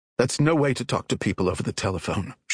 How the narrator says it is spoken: said sharply

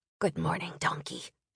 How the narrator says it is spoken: whispered

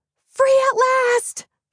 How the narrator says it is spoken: she squealed

